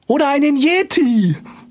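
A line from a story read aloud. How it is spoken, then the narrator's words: Calling out. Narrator (German): rief Clara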